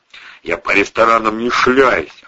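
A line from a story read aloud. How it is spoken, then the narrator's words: Snapping back. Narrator (Russian): огрызнулся Вовчик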